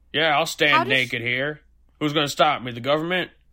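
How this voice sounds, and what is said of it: Caricatured conservative person voice. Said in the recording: “that was my impression of conservative people”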